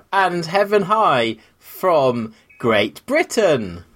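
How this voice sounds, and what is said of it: Put-on English accent. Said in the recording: “I'll try and do an English one now. ... That was my English accent.”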